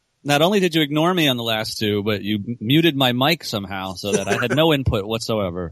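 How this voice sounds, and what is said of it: Usual voice. Nothing is said of it.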